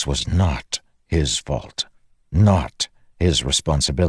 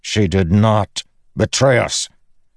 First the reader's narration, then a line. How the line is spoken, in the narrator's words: Dalinar snapped